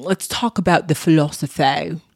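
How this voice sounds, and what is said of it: Odd put-on accent. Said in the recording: “I don't know what accent that was. What the hell was that?”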